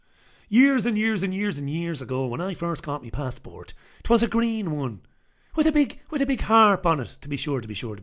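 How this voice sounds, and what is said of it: Genuine Irish accent. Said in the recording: “I won't because I'm Irish. Do not adjust your television screens. This is my real accent.”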